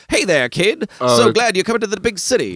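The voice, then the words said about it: 1920s transatlantic accent. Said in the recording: “everybody talks like in 1920s ... The transatlantic accent.”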